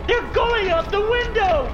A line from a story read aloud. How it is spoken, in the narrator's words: A crazed woman yells from the other side of the door